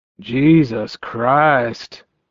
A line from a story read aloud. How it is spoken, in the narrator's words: Tanner muttered